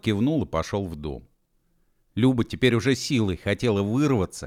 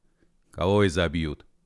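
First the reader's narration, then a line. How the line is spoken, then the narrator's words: Calm deep bass. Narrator (Russian): спокойно басил Петро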